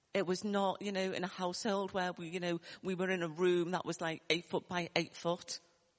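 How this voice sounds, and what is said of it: Liverpool accent. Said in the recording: “you might hear my accent from Liverpool”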